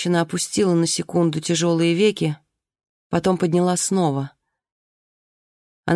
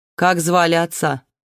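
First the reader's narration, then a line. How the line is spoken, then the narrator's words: Woman's question after a snort. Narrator (Russian): Женщина хмыкнула, спросила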